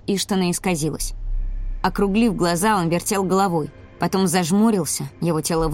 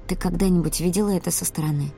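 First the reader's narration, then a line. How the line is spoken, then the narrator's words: Whispered question. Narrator (Russian): спросила я шепотом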